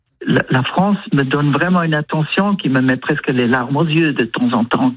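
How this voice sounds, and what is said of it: Slight foreign accent in French. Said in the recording (French): “j'ai un petit accent, on me dit. On remarque que je ne viens pas vraiment de chez vous.”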